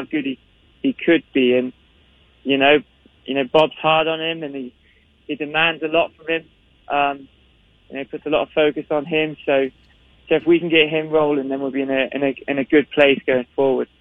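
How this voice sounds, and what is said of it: Scottish accent. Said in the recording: “speaks with a Scottish accent and uses terms like gaffer and top man”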